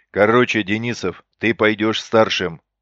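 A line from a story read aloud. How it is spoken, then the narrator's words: Growling over headset. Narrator (Russian): рычал в наушниках Исаев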